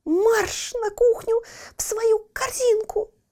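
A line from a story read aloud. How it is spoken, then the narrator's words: Shouted. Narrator (Russian): закричала она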